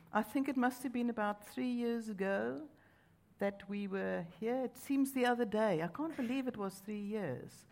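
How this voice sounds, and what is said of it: South African accent. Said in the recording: “As you can hear, ... and I have an accent, come from South Africa”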